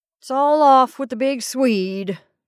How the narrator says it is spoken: he groaned

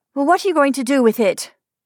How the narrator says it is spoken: asked Frances sharply

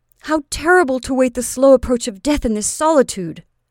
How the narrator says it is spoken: exclaimed he

